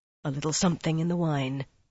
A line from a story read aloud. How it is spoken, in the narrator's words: Rand said softly